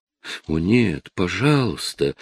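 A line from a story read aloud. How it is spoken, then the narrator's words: Exclaimed. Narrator (Russian): воскликнула Мария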